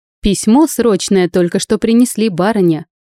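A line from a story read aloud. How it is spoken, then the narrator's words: Loud footman's report. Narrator (Russian): громко доложил входящий лакей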